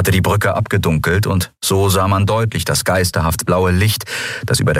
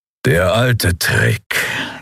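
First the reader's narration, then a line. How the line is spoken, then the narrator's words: Grudging growl. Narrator (German): knurrte Keru mit widerwilliger Anerkennung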